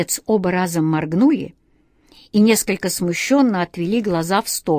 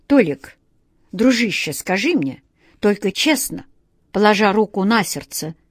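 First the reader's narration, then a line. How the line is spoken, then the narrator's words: Anxious whisper. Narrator (Russian): с тревогой прошептал Владимир Владимирович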